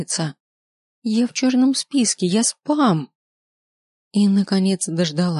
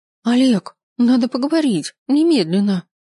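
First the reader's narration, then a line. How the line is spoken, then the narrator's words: Hoarse, near-hysterical. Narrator (Russian): Голос звучит хрипло, почти истерично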